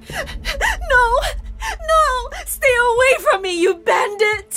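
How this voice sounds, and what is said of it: Scared crying voice. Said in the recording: “the woman cried out in a scared voice”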